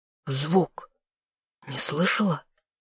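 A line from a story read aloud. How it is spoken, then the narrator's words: Whisper. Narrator (Russian): прошептал новый герцог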